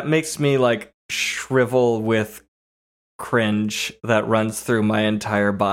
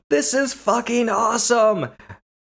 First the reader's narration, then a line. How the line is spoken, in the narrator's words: Darius yells back at them